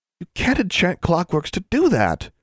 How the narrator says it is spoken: she exclaimed

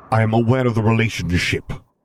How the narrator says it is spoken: Vader snapped

